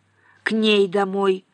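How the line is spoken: Clarifying. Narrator (Russian): уточнил Зло

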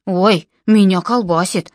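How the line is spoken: Exclaiming. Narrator (Russian): воскликнул Джон

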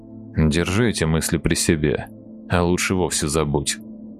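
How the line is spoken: Quiet curt veteran. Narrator (Russian): так же тихо отрезал ветеран

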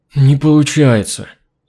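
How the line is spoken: Frustrated exhale. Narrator (Russian): раздосадованно выдохнул он

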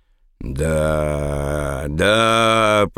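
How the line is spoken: Drawling. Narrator (Russian): протянула она

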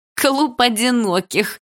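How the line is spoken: Bursting into laughter. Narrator (Russian): расхохоталась она

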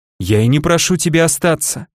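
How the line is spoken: Sniffling, calming down. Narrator (Russian): всхлипнула она, успокаиваясь

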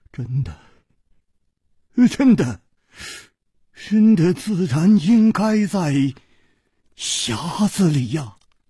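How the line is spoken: Trembling voice. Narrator (Chinese): 他颤声说

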